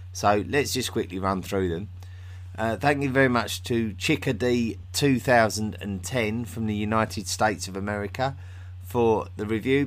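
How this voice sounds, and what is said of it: Speaks with a noticeable accent. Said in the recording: “accent is wonderful”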